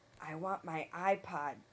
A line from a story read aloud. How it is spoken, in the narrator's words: John whispered